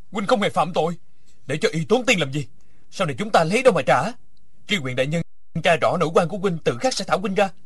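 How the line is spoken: Loud, increasingly angry. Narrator (Vietnamese): Địch Dân càng tức giận lớn tiếng

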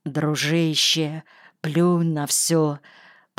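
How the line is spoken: Mumbled. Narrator (Russian): пробормотал Ситников

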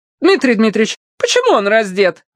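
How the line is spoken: Shrill shriek. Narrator (Russian): взвизгнула Анна Леонтьевна

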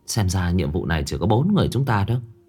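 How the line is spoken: Middle-aged woman, sighing. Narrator (Vietnamese): Người phụ nữ trung niên, thở dài một hơi nói

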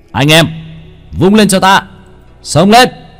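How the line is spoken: Shouting. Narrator (Vietnamese): Hắn hét lên một tiếng

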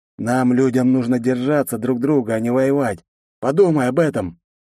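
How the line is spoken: Heavy sigh. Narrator (Russian): Тяжело вздохнув, произнес он

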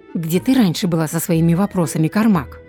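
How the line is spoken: Angry question. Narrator (Russian): сердито спросила Терамор

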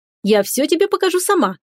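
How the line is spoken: Exclaimed. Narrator (Russian): воскликнула

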